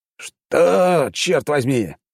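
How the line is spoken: Rough question. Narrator (Russian): грубо спросил барон

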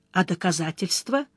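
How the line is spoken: Tired. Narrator (Russian): устало спросил Сварог

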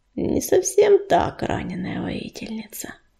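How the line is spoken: Unexpectedly gentle female badger. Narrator (Russian): неожиданно ласково ответила барсучиха

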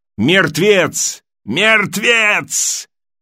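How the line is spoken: Repeated shouting. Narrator (Russian): Он кричал снова и снова

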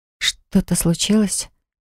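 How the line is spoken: Whispering. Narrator (Russian): прошептала девушка

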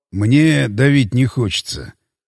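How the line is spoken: Sighing. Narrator (Russian): вздохнул Кузьминок

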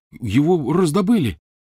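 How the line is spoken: Exclaiming. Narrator (Russian): воскликнул Рон

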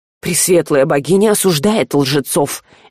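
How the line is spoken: Gentle reproach. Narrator (Russian): мягко упрекнул Жар

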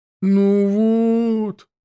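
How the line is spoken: Drawn-out. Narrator (Russian): протянул егерь

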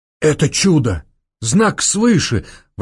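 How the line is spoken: Exclaiming. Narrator (Russian): воскликнул граф

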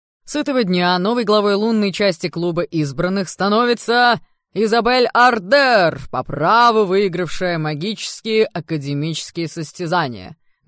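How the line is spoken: Loud proclamation. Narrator (Russian): громко провозгласил Кайл

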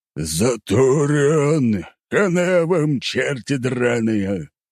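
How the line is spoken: Gnome shouting menacingly. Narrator (Russian): гном грозно закричал

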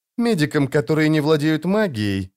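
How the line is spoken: Said through clenched teeth. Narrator (Russian): процедила волшебница

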